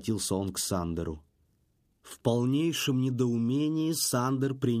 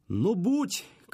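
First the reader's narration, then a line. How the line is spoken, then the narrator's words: Shouted after someone. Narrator (Russian): крикнул Эдик вдогонку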